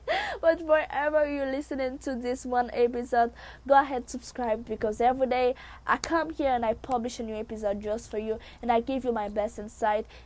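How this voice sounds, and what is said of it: Speaks with a noticeable accent. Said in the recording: “my accent is very interesting”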